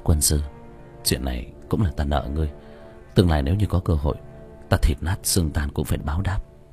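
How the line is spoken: Sighing whisper. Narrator (Vietnamese): Diệp Thiếu Dương thở dài thì thào

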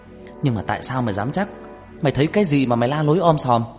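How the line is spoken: Mildly snapping. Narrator (Vietnamese): Nam gắt nhẹ

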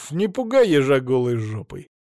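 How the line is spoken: Cheerful smirk. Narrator (Russian): весело усмехнулся я

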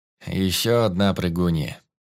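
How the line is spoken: Indifferent, through teeth. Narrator (Russian): Равнодушно процедил Костя

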